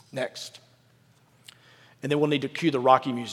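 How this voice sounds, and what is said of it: Usual voice. Nothing is said of it.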